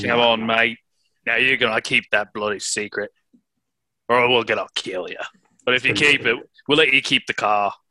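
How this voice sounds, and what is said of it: Put-on Australian accent, not convincing. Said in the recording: “can you do that in an Australian accent? ... this is not Australian.”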